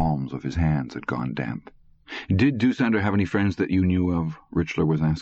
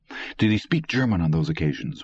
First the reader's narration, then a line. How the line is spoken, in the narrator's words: Richler asked quickly